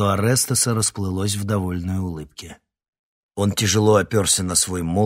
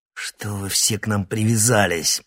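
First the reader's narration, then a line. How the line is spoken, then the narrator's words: Growled. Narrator (Russian): прорычал Никита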